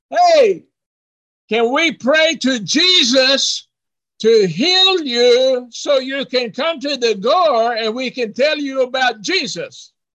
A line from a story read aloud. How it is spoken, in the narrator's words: he hollered